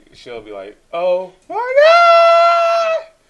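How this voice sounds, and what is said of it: Loud high-pitched exclamation. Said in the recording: “your impression of me ... your "Oh my God" loud pitch voice nonsense”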